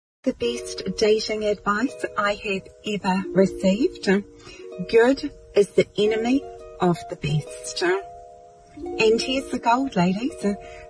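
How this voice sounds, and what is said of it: Australian or New Zealand accent. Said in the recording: “I think she's Australian, or she could be from New Zealand as well... Don't love the accent”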